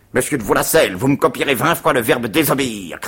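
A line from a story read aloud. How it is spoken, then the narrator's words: Shouted. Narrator (French): cria-t-il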